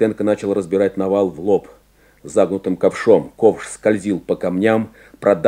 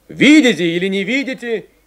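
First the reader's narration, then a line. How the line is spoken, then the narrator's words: Shout. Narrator (Russian): кричал Войтенко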